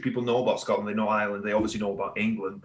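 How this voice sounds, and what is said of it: Welsh accent. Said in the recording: “Northeastern accent ... it's not Scottish, it's not Irish. I'm Welsh ... my accent's a little weird. I get Australian all the time. Australian, South African ... It sounds a little bit harsher than like a South African.”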